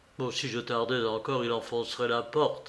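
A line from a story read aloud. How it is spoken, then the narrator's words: Captain murmuring. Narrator (French): murmura le capitaine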